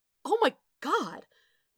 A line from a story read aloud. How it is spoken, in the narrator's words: Wade gasped